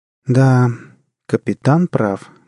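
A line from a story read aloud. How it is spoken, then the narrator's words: Gloomy confirmation. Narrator (Russian): мрачно подтвердила Джанет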